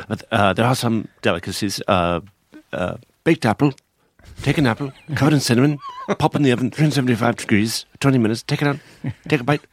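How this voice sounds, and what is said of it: Imitates another person's voice. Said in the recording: “my bad Tony Hopkins impression”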